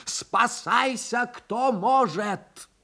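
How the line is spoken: Wild scream. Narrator (Russian): Акцизный закричал диким голосом

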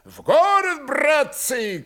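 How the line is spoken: Cheerful shouting. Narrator (Russian): кричали весело

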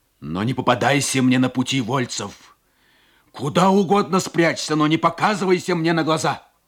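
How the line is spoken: Shouted farewell. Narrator (Russian): И на прощание крикнул

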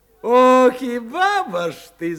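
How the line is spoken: Laughing. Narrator (Russian): засмеялся Виктор

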